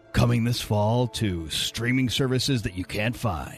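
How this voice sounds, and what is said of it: Movie trailer announcer voice. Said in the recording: “do the movie man voice? ... Like coming this fall.”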